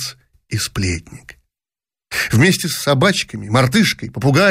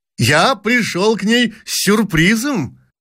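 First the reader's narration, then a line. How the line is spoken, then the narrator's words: Loud addition. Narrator (Russian): громко прибавил он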